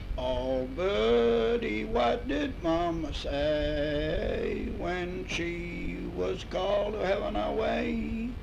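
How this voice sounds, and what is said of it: Hoarse singing voice. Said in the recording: “I'm so hoarse I can't.”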